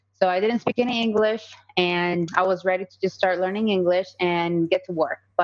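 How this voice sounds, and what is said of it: Slight Colombian Spanish accent. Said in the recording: “I have a little bit of an accent. I am from Colombia”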